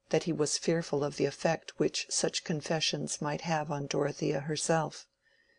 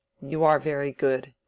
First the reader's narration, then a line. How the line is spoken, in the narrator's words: said Will irritably